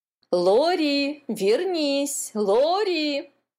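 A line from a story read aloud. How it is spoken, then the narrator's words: Shouting. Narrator (Russian): кричала мама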